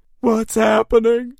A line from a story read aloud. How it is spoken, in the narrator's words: wailed